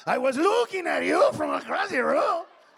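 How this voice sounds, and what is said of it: Put-on Mexican accent. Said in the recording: “Mexican accent”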